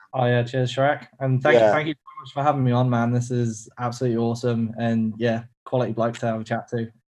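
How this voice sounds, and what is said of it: Australian accent. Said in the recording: “we love the Aussie accent.”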